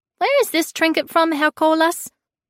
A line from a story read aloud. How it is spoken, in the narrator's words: piped up